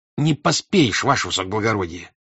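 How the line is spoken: Disrespectful, angry clerk. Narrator (Russian): отвечал писарь непочтительно и сердито

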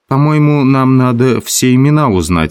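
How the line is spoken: Plain. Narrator (Russian): сказал Толстый

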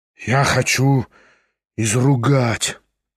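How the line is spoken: Muttering. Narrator (Russian): пробормотал Кириллов

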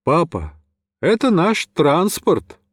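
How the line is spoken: Brisk cheerful voice. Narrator (Russian): бодрым голосом

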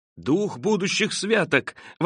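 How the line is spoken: Exclaiming. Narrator (Russian): воскликнул Скрудж

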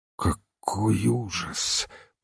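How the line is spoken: Moaning. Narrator (Russian): простонал Ивен Смит

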